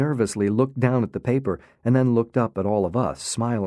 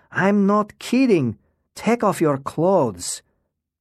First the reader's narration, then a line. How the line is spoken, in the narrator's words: Lara shouted